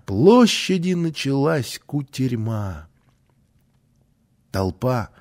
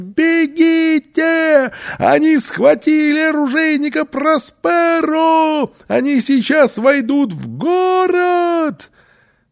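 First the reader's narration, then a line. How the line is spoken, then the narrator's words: Yell across square. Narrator (Russian): заорал на всю площадь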